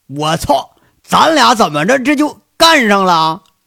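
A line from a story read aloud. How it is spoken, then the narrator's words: Sudden cry. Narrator (Chinese): 就听杨伟叫了一声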